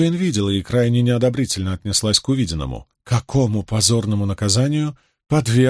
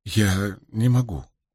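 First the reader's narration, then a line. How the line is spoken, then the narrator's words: Mumbling. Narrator (Russian): промямлила Авиенда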